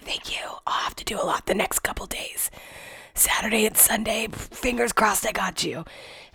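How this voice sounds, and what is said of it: Sick, strained voice. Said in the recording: “I literally cannot speak ... my voice sounds better than it did yesterday ... I am still super sick”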